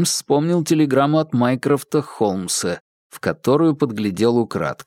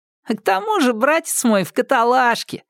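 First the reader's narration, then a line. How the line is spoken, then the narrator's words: Laughing. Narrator (Russian): рассмеялся Уиггинс II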